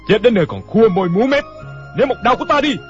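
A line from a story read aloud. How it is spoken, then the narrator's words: Impatient shout. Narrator (Vietnamese): Cảnh Thiên Bá không nhịn được, hét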